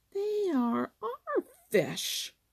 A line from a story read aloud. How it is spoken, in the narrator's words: said Little Joe fiercely